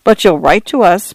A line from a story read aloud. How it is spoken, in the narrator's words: Paula said cheerfully